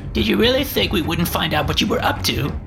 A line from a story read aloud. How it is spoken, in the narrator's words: snapped